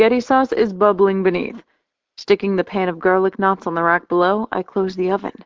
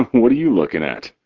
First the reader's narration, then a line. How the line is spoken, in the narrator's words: He laughs